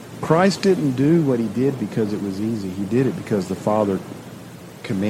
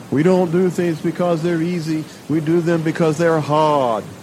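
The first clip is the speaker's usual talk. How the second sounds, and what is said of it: John F. Kennedy Massachusetts accent impression. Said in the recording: “That's my best Massachusetts accent.”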